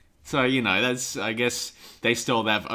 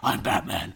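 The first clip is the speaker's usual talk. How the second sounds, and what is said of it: Batman impression. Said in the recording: “a pretty good Batman impression”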